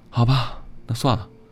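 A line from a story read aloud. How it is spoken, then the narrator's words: Resigned sigh. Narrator (Chinese): 孟小雪无可奈何地叹了口气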